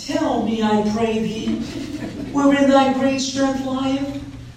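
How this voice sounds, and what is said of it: Delilah voice, Southern accent like Hedy Lamarr. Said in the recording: “I don't know if I can put on a Delilah voice ... Hedy Lamarr, that southern accent”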